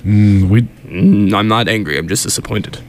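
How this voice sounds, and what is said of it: Disappointed father voice. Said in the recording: “father disappointed accent ... I felt the disappointment in your voice.”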